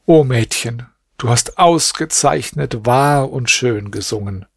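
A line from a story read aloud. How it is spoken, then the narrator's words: Deep sigh, then speaking. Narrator (German): Der Jüngling seufzte tief und sagte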